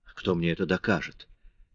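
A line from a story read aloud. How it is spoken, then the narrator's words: Muttered. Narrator (Russian): пробормотал Мариус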